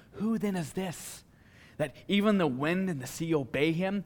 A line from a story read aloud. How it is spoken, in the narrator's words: the disciples whispering